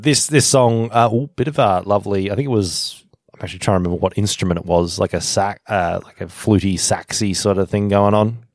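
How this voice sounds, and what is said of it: Australian wog accent. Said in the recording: “Is that what New South Wales folks sound like? ... this is just my stupid WOG accent ... It is the default when you've lived around it for such a long time ... both of Mediterranean descent”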